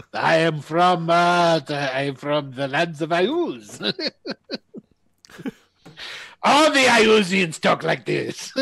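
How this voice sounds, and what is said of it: Slight put-on foreign accent. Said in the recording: “I detect a slight accent.”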